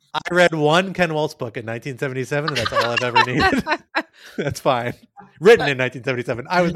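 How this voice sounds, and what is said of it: Usual voice. Nothing is said of it.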